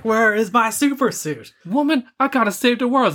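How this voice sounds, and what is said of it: Imitates another person's voice. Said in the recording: “doing a black voice”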